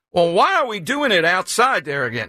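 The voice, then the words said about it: Put-on southern accent. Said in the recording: “I'm adopting more of a southern accent here”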